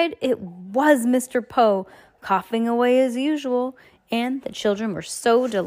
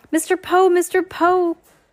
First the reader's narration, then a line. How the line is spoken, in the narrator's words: cried Violet